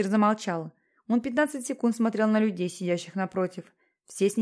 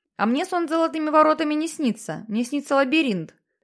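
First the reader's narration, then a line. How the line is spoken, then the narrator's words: Shouted from the audience. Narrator (Russian): выкрикнул кто-то из зала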